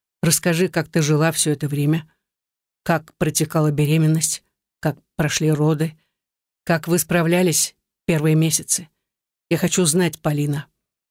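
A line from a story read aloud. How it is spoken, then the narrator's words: Sudden muffled, abrupt request. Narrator (Russian): просит вдруг глухо, отрывисто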